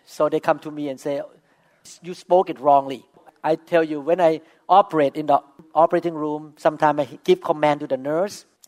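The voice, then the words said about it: Non-native English accent. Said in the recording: “the nurse always tease me my accent ... speaking not mother tongue language”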